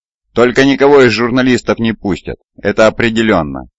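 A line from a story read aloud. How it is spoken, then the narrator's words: Announcing. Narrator (Russian): объявил Джон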